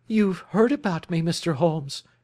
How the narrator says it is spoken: cried

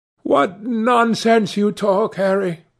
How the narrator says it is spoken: cried the lad

